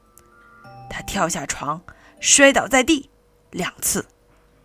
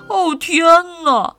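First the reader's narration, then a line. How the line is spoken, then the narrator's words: Sighing. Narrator (Chinese): 叹了口气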